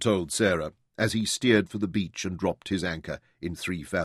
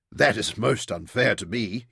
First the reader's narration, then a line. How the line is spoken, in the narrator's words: he chuckled